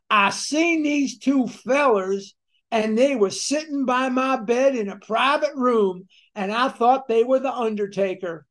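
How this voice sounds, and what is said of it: Thick Kentucky accent. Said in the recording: “very thick Kentucky accent ... And that's just how he spoke. He had a very thick,”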